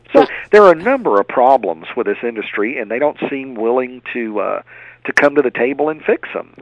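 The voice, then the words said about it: Southern American accent. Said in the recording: “this great Southern accent”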